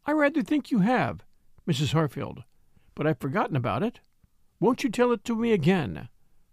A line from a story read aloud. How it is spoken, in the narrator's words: composedly, kindly, Catherine would reply